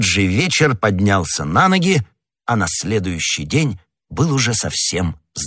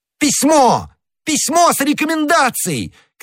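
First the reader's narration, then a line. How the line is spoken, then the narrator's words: Shouting. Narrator (Russian): кричал Д'Артаньян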